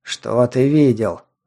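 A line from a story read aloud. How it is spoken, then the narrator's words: Irritated question. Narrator (Russian): раздраженно спросил гонянец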